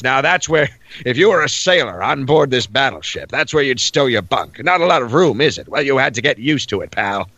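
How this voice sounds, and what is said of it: Gruff no-nonsense narrator voice. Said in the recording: “I do this kind of voice. I put on this sort of gruff. I imagine he's the XO of the ship, and he doesn't take any shit.”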